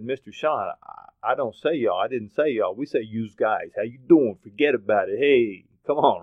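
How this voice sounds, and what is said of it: Put-on East Coast American accent. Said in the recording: “it also sounded very funny coming out of an East Coast accent ... For my East Coast friends”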